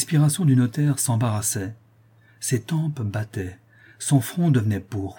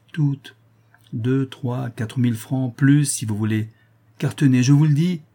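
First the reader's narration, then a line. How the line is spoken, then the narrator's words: Frank, almost affectionate. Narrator (French): ajouta franchement la duchesse d'un ton presque affectueux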